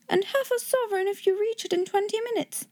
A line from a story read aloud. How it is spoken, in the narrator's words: cried